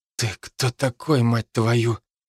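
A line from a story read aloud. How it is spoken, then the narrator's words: Hoarse. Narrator (Russian): Хрипло спросил агент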